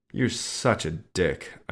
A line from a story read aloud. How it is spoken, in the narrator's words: I muttered